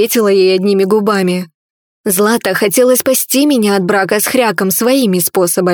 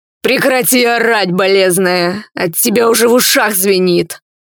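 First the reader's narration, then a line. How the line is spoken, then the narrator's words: Demon growling. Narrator (Russian): рыкнул демон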